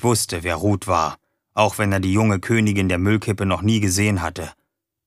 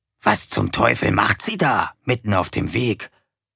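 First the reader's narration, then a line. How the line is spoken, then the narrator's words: Whispering. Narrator (German): flüsterte TomTom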